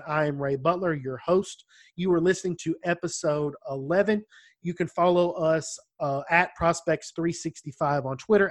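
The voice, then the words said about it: Strong country accent. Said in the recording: “my horrendous country accent”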